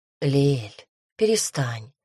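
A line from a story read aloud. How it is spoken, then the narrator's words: Soothing whisper. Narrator (Russian): прошептал Ксандр, стараясь успокоить плачущую любовницу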